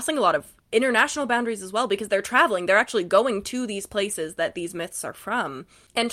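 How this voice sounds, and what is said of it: Usual voice. Nothing is said of it.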